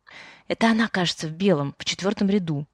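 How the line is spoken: Interpreter whispering. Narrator (Russian): прошептала переводчица

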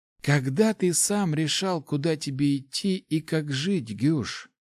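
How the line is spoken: Old man sighing. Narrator (Russian): Старик вздохнул

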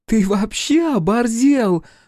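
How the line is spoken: Shrill squeal. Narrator (Russian): взвизгнула Стася

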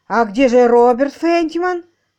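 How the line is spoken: Anxious question. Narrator (Russian): взволнованно осведомился адвокат

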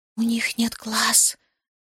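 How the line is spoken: Breathless whisper. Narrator (Russian): шепотом выдохнула

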